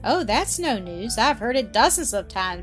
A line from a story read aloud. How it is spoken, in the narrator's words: she interrupted, laughing